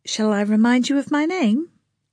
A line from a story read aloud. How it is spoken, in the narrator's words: Lana said evenly